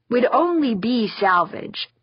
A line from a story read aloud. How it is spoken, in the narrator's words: Theo said